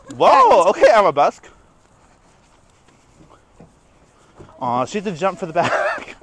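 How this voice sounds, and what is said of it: Out of breath, heavy breathing. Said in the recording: “The mic probably picked up our heavy breathing ... I'm out of breath right now ... I'm so out of shape”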